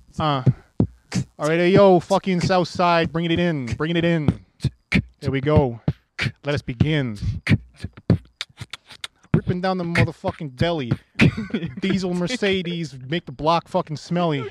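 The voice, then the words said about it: Put-on Boston accent, rapping. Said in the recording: “You do with a Boston accent though too.”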